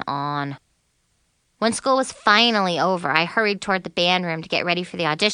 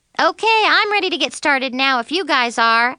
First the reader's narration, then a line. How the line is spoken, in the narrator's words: I said cheerfully